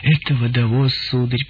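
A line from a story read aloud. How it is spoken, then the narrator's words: Sad explaining. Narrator (Russian): печально поясняла тетушка Плутарх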